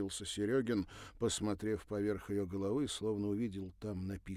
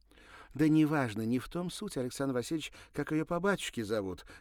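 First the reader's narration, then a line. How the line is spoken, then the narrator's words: Exclaimed. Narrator (Russian): воскликнула Ирина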